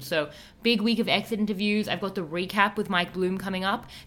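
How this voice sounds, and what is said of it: Strained, worn-out voice. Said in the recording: “sorry about my voice... I am pushing through. I'm surprised I have a voice.”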